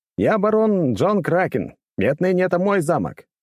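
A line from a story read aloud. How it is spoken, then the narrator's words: Shouted reply. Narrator (Russian): прокричал я в ответ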